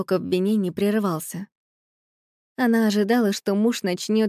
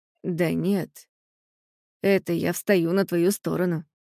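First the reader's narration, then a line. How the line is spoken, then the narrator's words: Husband's calm reply. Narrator (Russian): спокойно отозвался ее муж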